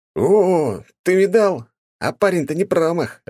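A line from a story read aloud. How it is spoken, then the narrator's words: Shout. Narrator (Russian): закричал Саня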